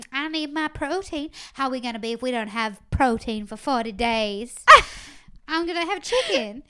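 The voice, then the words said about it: Southern accent like Blanche DuBois. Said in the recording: “You sound like Blanche DuBois. ... she does have a southern accent”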